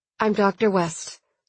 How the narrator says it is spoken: she said evenly

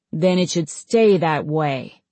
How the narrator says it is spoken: Swordtail growled

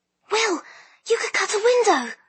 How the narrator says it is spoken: Lyra said urgently

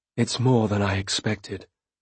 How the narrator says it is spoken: I said quietly

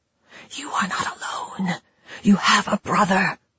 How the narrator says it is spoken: she whispered

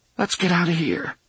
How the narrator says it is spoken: Jake said in a trembling voice

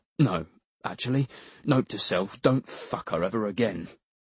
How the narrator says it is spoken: he muttered to himself

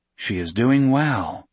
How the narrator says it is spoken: he said

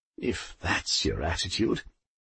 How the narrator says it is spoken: muttered Poldy

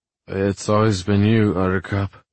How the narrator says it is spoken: I groan

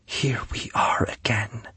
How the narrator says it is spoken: she repeated softly

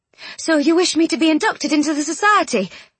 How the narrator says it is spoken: she said eagerly

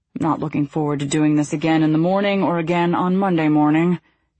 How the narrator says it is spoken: Thomas grumbled

